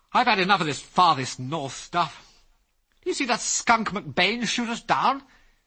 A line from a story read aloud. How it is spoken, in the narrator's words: he said bitterly